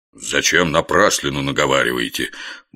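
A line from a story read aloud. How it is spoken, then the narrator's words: Grumbled. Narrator (Russian): буркнул Горох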